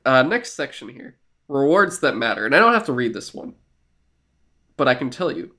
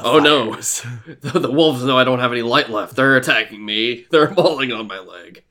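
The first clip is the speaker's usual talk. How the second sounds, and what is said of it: Imitates a game character's voice. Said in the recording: “my Saladin impression ... It's actually pretty good.”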